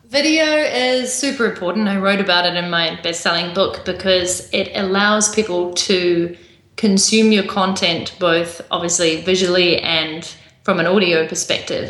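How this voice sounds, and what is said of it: New Zealand accent. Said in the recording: “my accent from New Zealand”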